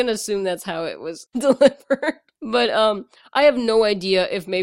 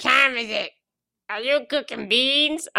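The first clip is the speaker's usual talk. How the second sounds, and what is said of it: Childlike character voice. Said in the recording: “You kind of made him sound like Baby Ernest from your pitch.”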